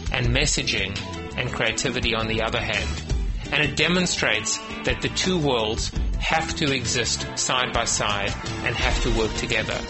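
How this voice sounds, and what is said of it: Slight South African accent. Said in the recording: “I detect a little accent there ... he's a South Africaner”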